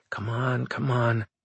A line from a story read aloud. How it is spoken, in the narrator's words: Engels muttered to herself